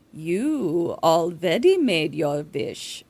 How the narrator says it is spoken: she purrs

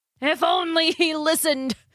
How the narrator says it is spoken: cried Daedalus

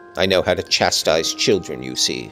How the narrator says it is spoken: said the scoundrel, grimly

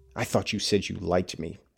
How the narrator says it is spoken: demanded, almost savagely now, realizing that his dreams of a happy outing this day were fading into nothing

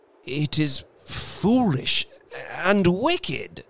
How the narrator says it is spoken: he faltered

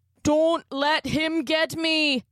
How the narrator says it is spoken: Connor cried, slowly being pulled back into the bathroom

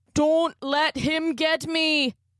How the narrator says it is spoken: Connor cried

